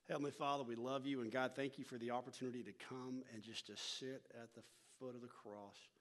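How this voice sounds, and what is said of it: North Texas accent. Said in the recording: “I'm originally from North Texas, so if my accent kind of gets in the way a little bit”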